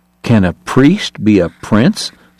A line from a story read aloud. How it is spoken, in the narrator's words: someone asked